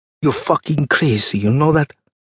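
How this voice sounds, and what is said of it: Man speaking in thick accent. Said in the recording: “My father said in his thick accent.”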